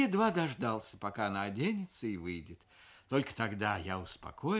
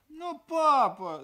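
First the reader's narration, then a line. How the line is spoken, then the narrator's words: Whimpering daughter. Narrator (Russian): захныкала дочь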